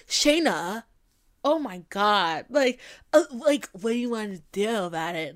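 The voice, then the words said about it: Congested, unsexy male voice impression. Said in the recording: “you heard Shane's voice, his congested ass voice ... It's not even a sexy voice.”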